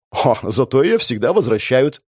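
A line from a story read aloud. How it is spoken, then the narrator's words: Snort. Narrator (Russian): хмыкнула Шаглана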